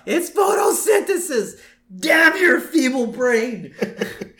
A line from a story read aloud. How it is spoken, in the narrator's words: He screams out